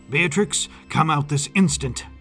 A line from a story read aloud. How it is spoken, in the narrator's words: Henry barked